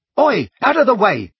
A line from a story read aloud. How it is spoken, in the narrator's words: Ron barked